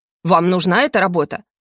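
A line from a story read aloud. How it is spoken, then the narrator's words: Barking, then softening. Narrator (Russian): Рявкнула HR-щица, но мгновенно сбавила тон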